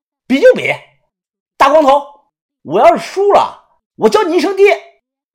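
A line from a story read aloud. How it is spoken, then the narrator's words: Fierce loud retort. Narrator (Chinese): 小道士立即也发起了狠，大声的回话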